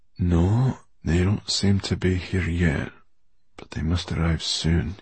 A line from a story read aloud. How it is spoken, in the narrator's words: he said quietly